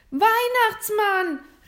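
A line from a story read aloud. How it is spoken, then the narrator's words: Quick call. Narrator (German): rief William sofort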